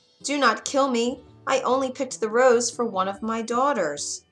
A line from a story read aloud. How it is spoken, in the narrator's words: begged